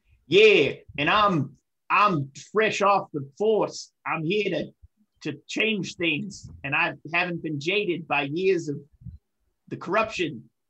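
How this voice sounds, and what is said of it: Put-on New York accent. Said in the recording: “I can do my New York accent.”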